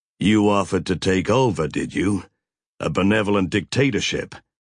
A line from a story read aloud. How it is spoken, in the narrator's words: Mac growled